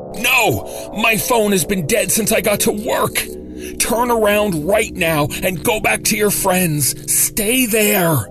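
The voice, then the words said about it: Hoarse panicked screaming. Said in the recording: “My voice, hoarse with sudden panic, screamed at her.”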